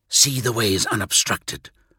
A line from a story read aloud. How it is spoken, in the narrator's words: Korax hissed